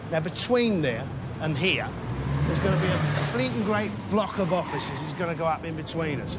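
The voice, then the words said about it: Distinctive old-fashioned London accent. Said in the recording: “Just no one speaks like that anymore. ... It's like David Bowie's accent ... Nobody talks like that anymore, do they? ... It's so unique.”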